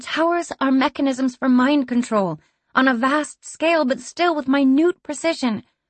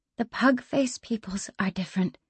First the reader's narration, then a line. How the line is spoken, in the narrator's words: Dima said quietly